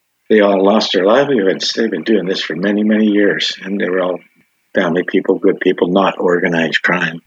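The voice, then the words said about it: Emotional, choked-up voice. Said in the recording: “Sorry, I'm getting emotional. I just got to take a moment”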